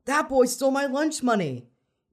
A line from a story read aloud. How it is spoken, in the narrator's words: the giant kid, the tall boy yelled